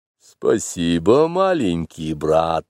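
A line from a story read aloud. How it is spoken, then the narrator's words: Amused, hidden laughter. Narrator (Russian): сказал Каа, хотя глаза его смеялись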